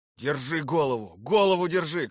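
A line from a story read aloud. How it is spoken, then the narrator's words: Shouting. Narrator (Russian): кричал Савельев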